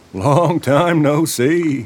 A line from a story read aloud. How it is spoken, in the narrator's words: Frogman Tom chuckled